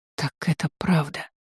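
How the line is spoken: Barely audible whisper. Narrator (Russian): Тиана прошептала едва слышно

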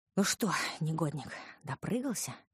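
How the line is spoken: Breathy exhale. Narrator (Russian): выдохнула я

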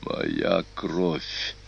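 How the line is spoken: Hoarse. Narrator (Russian): хрипло произнес Атила

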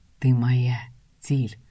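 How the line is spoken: Velvety whisper. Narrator (Russian): бархатный шепот

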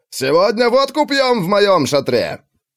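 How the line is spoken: Shouting. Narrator (Russian): Иван прокричал

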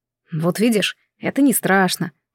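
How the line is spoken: Whisper. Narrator (Russian): прошептал Дэвид

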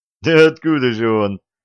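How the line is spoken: Group laughing. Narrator (Russian): засмеялись

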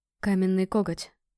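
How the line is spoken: Hoarse call. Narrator (Russian): хрипло позвал Острозуб

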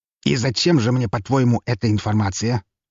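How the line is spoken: Snorted. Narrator (Russian): фыркнул он

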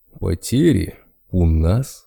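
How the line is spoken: Spiteful chuckle, bear. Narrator (Russian): злобно хохотнул медведь

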